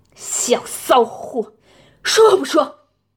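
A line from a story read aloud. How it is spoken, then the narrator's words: Roaring. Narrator (Chinese): 吼完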